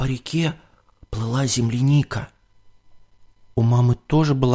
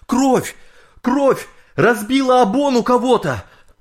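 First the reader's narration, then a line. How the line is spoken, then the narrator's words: Men shouting in alarm. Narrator (Russian): сплавщики с катера, спасавшие людей, закричали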